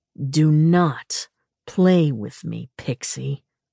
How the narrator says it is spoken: he growled

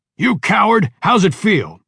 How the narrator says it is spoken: Though he knew Parker was in too much pain to hear anything, Mike shouted at him

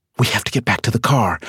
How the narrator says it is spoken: she whispered to Pinky

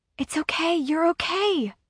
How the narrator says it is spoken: I whisper

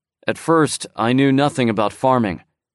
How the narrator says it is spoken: said Tian Ming

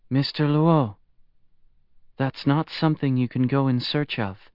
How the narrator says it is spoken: She said gently

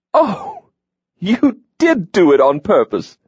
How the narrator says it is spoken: Hawk laughed, mischief crinkling his eyes

